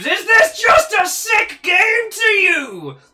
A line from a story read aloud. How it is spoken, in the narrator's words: Amberlynn Burns screams